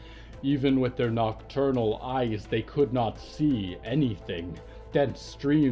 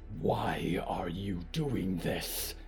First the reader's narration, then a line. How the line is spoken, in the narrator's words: Diggory hissed